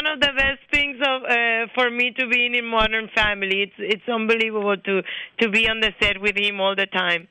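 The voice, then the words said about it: Strong natural foreign accent. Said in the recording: “your accent is not put on. It's the same on talk shows as it is on the show ... my accent worse and worse with time”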